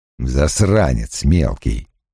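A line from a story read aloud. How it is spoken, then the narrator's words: Muttered. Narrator (Russian): пробормотал Страйк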